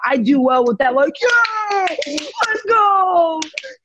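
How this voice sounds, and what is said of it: Imitates another person's voice. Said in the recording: “Is that an impersonation of me? ... a good impersonation”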